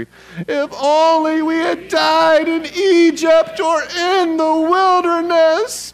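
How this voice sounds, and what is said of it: Whiny complaining voice. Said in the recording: “in your best whiny voice... Your best whiny voice.”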